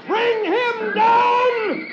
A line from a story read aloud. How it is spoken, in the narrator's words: the sheriff shouts to his archers